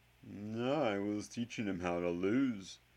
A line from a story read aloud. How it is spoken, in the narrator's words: Professor Quirrell said dryly